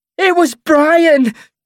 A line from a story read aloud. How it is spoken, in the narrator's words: she sobs, breaking down